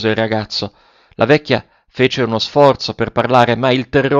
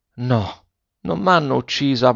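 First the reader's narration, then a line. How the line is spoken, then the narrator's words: Old woman's muffled murmur. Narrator (Italian): mormorò la vecchia con voce soffocata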